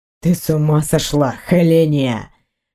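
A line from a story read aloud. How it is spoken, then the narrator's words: Low growl. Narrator (Russian): Низко прорычал он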